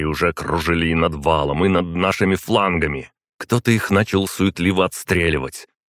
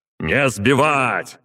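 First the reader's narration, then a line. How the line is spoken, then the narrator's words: Shout. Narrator (Russian): крикнул я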